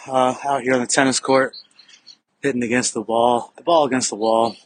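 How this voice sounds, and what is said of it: Slightly out of breath. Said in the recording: “I'm a little bit out of breath this morning.”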